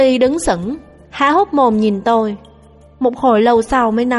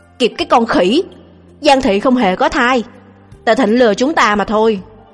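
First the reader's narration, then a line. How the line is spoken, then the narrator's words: Angry scolding. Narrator (Vietnamese): cạnh sườn âm ỉ đau vì tức giận, mắng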